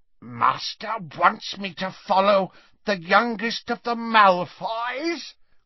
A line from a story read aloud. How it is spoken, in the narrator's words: croaked Creature